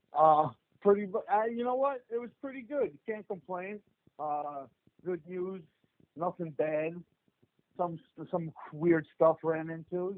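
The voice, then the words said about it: New Jersey accent. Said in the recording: “you guys are obviously uh, from New Jersey because as soon as the minute that you guys open your mouth, you can you can tell ... you can hear the accent ... you guys all sound scary just because of the accent”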